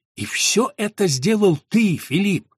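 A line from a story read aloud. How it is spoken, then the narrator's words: Astonished whisper. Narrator (Russian): изумленно прошептал он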